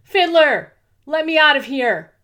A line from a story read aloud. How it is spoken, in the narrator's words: shouted with all she had